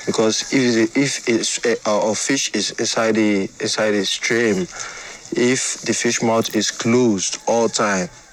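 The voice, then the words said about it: Non-native English dialect. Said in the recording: “I'm trying to speak in my dialect like I'm talking to my friend ... Forgive my English”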